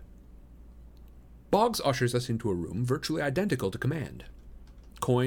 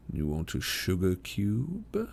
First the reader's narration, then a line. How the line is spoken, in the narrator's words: he asks in his old seductive voice